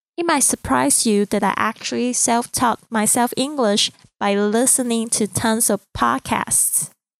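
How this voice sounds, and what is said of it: Chinese accent in English. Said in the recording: “You may be picking up a bit of Chinese accent as I'm speaking English, and you would be right.”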